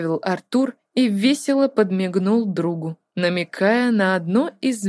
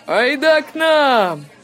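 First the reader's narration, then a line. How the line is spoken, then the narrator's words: Powerful distant shout. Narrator (Russian): мощно прокричал Треверс откуда-то из-за угла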